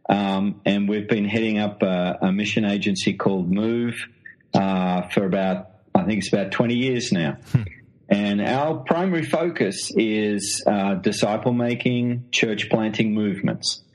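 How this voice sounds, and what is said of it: Australian accent. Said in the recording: “as you can tell from the accent, I'm an Australian.”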